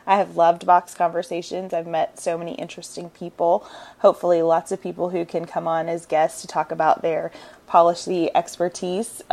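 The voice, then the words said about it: Congested, allergy-affected voice. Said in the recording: “you can hear in my voice my allergies are going crazy”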